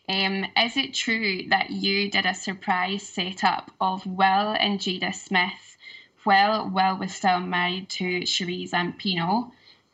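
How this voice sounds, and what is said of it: Scottish accent. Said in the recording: “Are you big Tisha fans in Scotland? ... I love your accent. ... I know, it's beautiful.”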